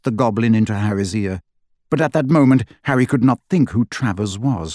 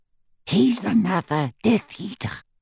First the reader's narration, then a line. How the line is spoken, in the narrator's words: breathed Griphook